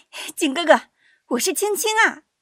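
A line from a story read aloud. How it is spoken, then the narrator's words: Childlike voice, calling. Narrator (Chinese): 稍带童音地再喊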